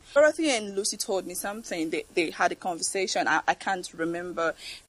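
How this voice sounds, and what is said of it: Very thick, rich accent. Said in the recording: “accent is very rich ... She has a very, very thick accent ... I just can't get past that accent.”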